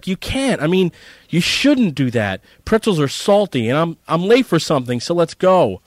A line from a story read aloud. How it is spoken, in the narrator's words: yelled Eric